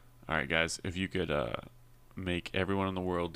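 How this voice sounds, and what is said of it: Usual voice. Nothing is said of it.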